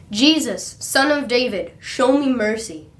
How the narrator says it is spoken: he began to shout

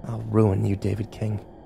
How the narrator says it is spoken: whispered

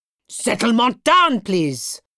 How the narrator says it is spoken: shouted the teacher

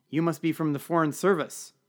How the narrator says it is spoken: she said

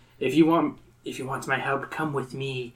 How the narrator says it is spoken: she whispers

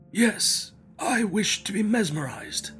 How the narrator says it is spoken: He replied feebly, yet quite audibly

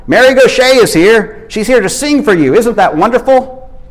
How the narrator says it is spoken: Carla bent down over Robert and shouted

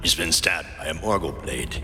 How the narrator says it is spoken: the Dunedain said grimly

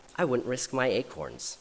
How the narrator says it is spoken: said the oak

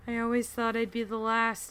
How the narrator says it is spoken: she said mournfully

